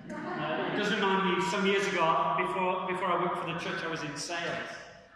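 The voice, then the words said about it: English accent. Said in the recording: “please bear with me in my English accent.”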